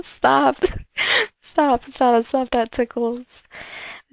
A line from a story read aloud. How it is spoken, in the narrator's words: laugh and tell him